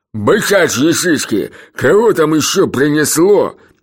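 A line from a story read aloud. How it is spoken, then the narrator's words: Barked. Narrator (Russian): рявкнул Бубута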